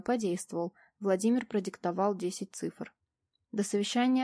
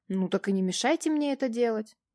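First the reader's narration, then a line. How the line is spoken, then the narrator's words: Mildly irritated, raised voice. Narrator (Russian): Слегка раздраженно повысила я голос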